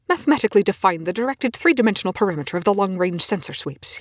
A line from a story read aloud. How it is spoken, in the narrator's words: he snaps